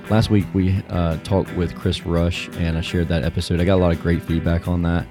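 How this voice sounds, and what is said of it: Slightly strained, recovering voice. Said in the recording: “my voice is a little bit off. I lost my voice last week ... it's always wild at those events ... I'm just starting to get my voice back”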